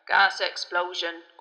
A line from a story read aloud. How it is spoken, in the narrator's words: grunted Ernie